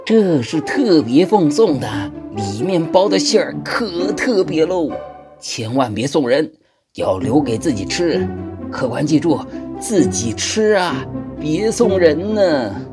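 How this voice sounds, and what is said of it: Quiet, hushed confiding voice. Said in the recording (Chinese): “小声叮咛”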